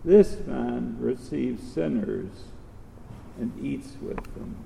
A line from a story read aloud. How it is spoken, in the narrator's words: the Pharisees and the scribes grumbled, saying